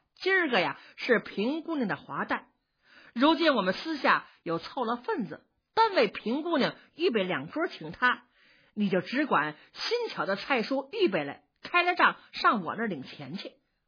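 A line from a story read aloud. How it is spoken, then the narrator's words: Laughing. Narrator (Chinese): 探春笑着说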